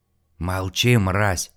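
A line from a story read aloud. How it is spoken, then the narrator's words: Hissing drunk man. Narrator (Russian): прошипел алкаш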